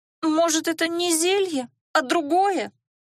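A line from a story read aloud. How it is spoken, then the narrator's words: Hopeful moan. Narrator (Russian): С надеждой простонала целительница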